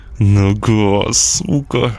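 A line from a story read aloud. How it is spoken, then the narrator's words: Hissed through teeth in pain. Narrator (Russian): Стискивая зубы, прошипел я, не в силах терпеть жуткую боль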